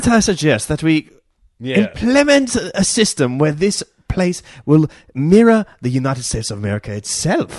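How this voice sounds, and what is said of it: Pompous posh London-style accent. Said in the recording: “Pompous- gentleman ... compared to the rest of the accents ... which are pretty guttural Southern ... You just hear this a Londoner or something ... it's like 3PO meets...”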